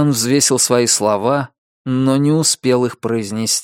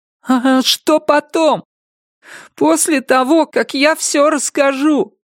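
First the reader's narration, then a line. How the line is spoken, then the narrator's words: Badly trembling voice. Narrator (Russian): Сказал он таким дрожащим голосом, что было неясно, выдержит ли он этот разговор дальше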